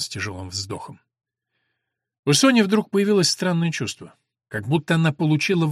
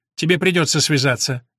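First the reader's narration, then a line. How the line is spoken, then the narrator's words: Sharp. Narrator (Russian): резко сказала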